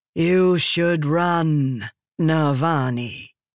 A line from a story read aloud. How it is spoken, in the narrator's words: Raboniel said to a calm rhythm, her voice echoing in the room